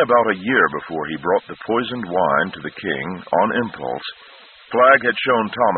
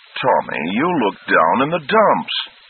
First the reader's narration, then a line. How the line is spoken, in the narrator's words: he cried